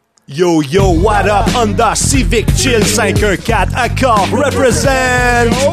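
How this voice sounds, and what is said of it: Exaggerated urban street-style voice. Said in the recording (French): “prendre une voix un peu plus urbaine”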